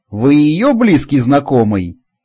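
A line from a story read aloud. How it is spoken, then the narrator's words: Chuckling over the phone. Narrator (Russian): хохотнула трубка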